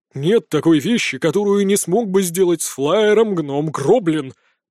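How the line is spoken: Pompous. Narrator (Russian): пафосным тоном заявил тот

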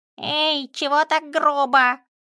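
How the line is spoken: Squeak. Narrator (Russian): пискнул камень

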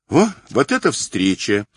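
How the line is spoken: Girl's spontaneous exclamation. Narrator (Russian): непосредственно воскликнула девушка

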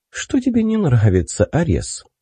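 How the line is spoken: Calm, charming, smiling. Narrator (Russian): поинтересовалась она спокойным голосом, обаятельно улыбаясь

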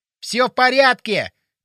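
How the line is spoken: Shouting. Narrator (Russian): крикнул он

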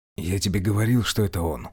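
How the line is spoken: Whispered. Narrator (Russian): шепнул Самойлов

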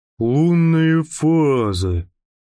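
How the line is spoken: Drawn-out, thoughtful. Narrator (Russian): протянул он задумчиво

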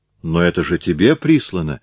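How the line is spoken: Hesitant, unsure objection. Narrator (Russian): возразила Галя не очень твердым тоном

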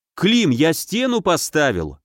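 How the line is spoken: Joyful announcement. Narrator (Russian): радостно сообщил ему Каменев

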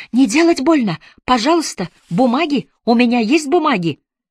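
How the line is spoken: Shouting. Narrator (Russian): Кумар закричал

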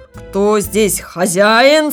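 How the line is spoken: Stern question. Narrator (Russian): спросил строго

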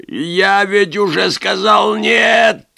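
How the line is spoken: Growl like wounded animal. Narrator (Russian): Как раненый зверь прорычал Вульф

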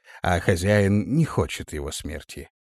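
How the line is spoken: Calm. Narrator (Russian): спокойно ответил тот

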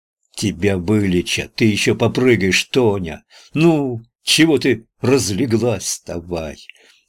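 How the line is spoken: Angry, changed tone. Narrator (Russian): сказал совсем другим тоном, сердито

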